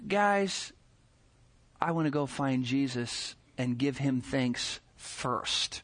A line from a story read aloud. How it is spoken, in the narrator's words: one in a little bit somber tone says